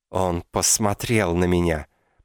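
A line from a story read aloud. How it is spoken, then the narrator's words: Malicious hiss. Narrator (Russian): прошипело зло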